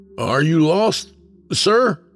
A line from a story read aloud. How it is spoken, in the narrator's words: Jordan called out